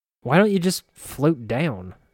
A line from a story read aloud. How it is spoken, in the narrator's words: I growled